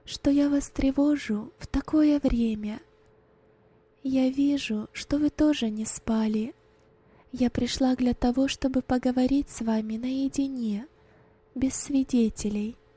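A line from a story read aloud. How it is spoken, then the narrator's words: Quiet whisper. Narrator (Russian): тихо прошептала Роза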